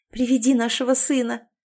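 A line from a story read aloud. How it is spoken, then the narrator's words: Tearful joyful plea. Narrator (Russian): попросила я сквозь слезы радости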